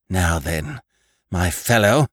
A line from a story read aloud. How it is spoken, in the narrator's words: gasped Annie at length